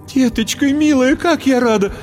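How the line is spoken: Exclaiming. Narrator (Russian): воскликнула всхлипнула

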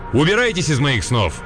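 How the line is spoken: Stern shout. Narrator (Russian): прикрикнуть строгим голосом

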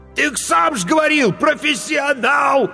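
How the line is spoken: Desperate shout. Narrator (Russian): отчаянно выкрикнул корчмарь

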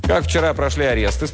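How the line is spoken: Plain. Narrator (Russian): спросил Удалов

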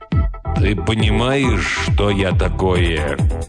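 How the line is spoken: Slow and sad. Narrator (Russian): Медленно и печально говорит он

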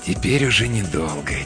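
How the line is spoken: Quiet. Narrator (Russian): тихо говорит он

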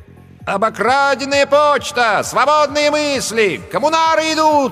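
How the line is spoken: Shouting. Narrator (Russian): кричал он

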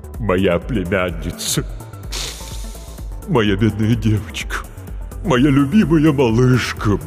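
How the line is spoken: Deep-voiced wailing lament. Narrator (Russian): басом запричитала трагедия

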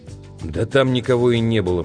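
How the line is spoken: Muttering. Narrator (Russian): пробурчал

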